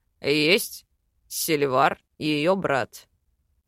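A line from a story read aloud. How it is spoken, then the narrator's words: Growl. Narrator (Russian): рыкнул Йоран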